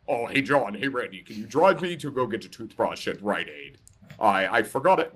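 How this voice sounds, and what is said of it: Imitating a friend's voice. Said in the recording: “I'm doing a Tom voice.”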